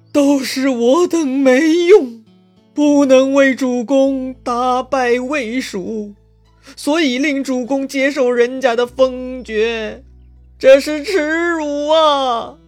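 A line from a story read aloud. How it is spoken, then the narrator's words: Weeping. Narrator (Chinese): 那个哭的人呢，就是大将徐盛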